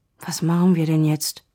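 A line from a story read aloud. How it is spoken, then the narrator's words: Frightened. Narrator (German): Auch Dennis klang ängstlich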